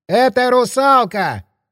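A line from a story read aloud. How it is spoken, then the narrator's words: Sudden shout. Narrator (Russian): вдруг прокричал парень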